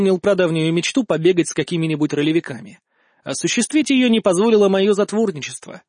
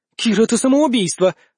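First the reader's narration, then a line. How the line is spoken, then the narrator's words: Exclamation. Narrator (Russian): воскликнула Вика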